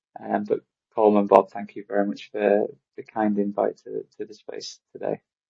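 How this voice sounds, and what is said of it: Non-American accent. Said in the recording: “As you could probably tell by my accent, I'm probably in the minority here, not being American.”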